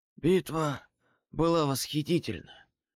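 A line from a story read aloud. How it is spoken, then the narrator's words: Hoarse wheeze. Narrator (Russian): прохрипел он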